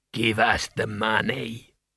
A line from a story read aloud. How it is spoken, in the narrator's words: he rasped